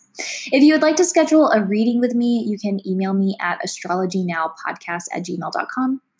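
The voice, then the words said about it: Squeaky voice, sounds under the weather. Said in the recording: “I'm actually kind of under the weather. So if my voice is squeaky, I apologize.”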